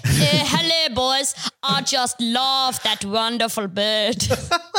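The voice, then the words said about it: South African accent, Elon Musk impression. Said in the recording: “doing a South African accent”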